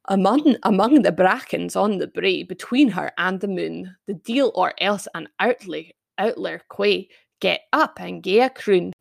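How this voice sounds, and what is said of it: Stronger Scottish accent than usual. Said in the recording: “maybe you can hear my accent more than normal”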